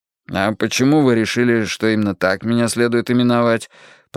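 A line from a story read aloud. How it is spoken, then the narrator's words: Grumble. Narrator (Russian): проворчал я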